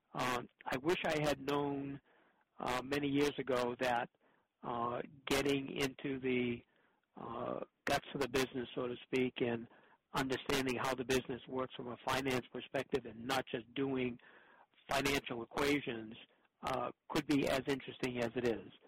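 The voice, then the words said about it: Boston accent. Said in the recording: “I'm aware you're based in Boston, but I think our listeners might have a clue as well from your accent.”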